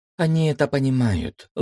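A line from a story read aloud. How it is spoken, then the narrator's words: Sighing. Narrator (Russian): вздохнула Эльсида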